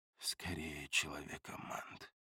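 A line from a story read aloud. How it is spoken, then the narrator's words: Muttered. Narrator (Russian): пробормотал я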